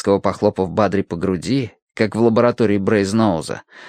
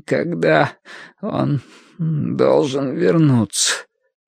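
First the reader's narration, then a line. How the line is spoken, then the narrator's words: Strained, forced out. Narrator (Russian): выдавил Бадри через силу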